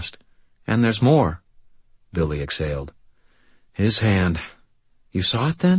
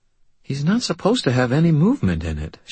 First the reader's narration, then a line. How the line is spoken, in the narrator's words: she said, her voice growing more worried